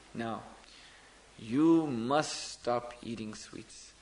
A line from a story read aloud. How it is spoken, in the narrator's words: the sadhu said to him in a very grave voice, very seriously